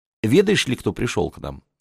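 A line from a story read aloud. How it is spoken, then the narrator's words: Wife asking tenderly. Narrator (Russian): ласково спросила жена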